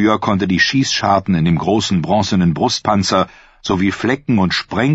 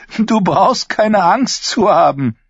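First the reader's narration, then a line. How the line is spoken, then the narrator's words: Called out. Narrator (German): rief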